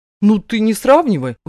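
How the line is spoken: Indignant reply. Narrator (Russian): возмущенно откликается

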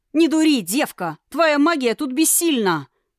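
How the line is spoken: Man shouting. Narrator (Russian): крикнул один из мужчин

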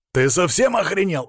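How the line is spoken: Angry bark. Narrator (Russian): рявкнул я

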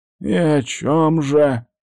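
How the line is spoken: Braced old man's grumble. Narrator (Russian): проворчал старик, судя по голосу, приготовившись морально, дабы не поймать сердечный приступ

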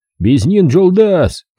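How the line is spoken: Group shouting. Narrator (Russian): кричали мне казахи

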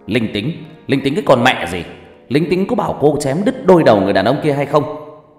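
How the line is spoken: Angry loud shout. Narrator (Vietnamese): Đồng chí cảnh sát hình sự kia hét lớn vào mặt của Ngọc Lam

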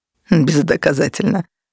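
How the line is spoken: Laughing. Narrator (Russian): рассмеялся Бернард

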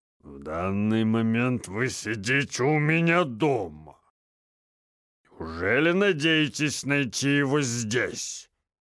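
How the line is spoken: Grumbling. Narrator (Russian): проворчал Вильямсон

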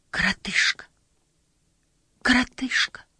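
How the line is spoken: Hesitant whisper. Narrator (Russian): решилась, наконец, прошептать Инагу

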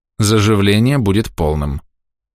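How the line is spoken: Perfectly even voice, healer. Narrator (Russian): совершенно ровным голосом сказал лекарь

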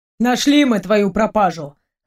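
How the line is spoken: Smirking. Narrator (Russian): хмыкнул Дима

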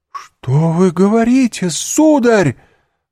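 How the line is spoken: Distraught exclamation. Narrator (Russian): воскликнула госпожа де Вильфор, ломая руки

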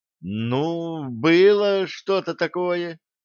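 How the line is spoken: Uncertain drawl. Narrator (Russian): неуверенно протянул Юнга

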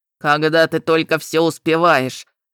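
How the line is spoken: Envious grumbling, gatekeepers. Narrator (Russian): с завистью проворчали привратники

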